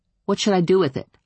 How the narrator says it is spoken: I asked

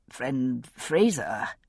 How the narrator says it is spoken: said thickly

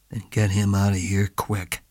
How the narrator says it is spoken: he said

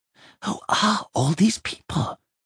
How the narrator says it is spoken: Simon whispered

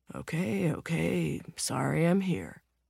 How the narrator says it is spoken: throw his arms up and mutter

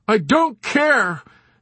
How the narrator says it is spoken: Nately shouted desperately

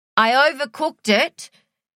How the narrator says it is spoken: his mother called out

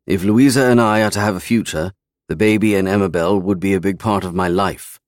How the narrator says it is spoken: I said curtly

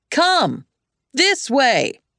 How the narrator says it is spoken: he shouted because they were deaf

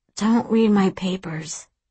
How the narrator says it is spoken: I moan

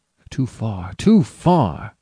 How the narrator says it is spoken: exclaimed the goodman

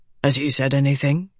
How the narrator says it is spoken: Dalinar said softly

